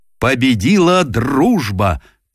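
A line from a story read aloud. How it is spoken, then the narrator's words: Solemn shout. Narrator (Russian): торжественно выкрикнул он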